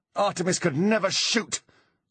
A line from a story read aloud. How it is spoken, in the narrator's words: she snarled